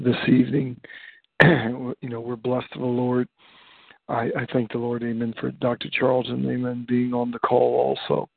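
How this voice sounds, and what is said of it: Quiet, low-volume speaking voice. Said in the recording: “my voice is so low is because on Thursday nights my wife is sleeping ... So I'm trying to be quiet”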